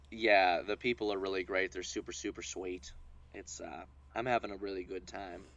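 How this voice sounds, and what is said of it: Slight Alabama accent. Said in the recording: “the little accent you're giving ... I've been kind of slipping into a little bit of a slight Alabama accent”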